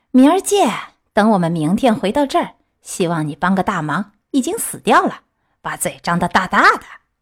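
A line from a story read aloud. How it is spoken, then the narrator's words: Impatient sneering. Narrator (Chinese): 他们最后等得不耐烦了，冷笑着对他说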